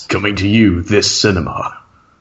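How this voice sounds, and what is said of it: Dramatic movie trailer voice. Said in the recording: “Just do it like really dramatically... Like, do it like really, really dramatically... Like the new movie trailer. Movie trailer voice.”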